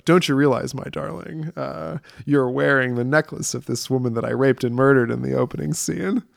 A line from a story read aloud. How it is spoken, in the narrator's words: he's like just laughing and like having a good time, but he's fucking furious